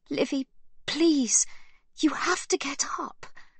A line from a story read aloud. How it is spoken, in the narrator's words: Sibby pleads